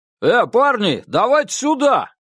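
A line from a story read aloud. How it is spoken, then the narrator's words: Big man shouting aside. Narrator (Russian): крикнул в сторону здоровый красномордый мужик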